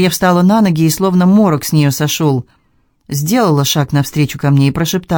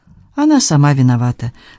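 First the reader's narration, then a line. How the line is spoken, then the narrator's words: Calm, offhand. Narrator (Russian): спокойно ответила Дарья, точно говорила о чем-то незначительном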